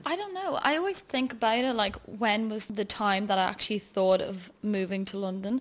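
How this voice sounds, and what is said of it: Dublin Irish accent. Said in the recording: “you're clearly from your accent. You are from Dublin.”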